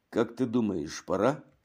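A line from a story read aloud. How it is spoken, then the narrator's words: Barely audible. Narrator (Russian): спросил Шабо так тихо, что его приятель скорее угадал, чем услышал эти слова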